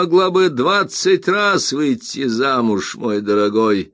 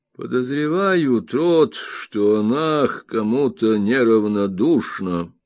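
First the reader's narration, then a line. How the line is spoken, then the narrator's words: Grandmother speaking slowly. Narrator (Russian): бабушка сказала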